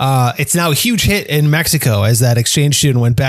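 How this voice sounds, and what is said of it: Usual voice. Nothing is said of it.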